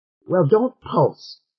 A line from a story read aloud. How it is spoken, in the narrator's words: said Dua sharply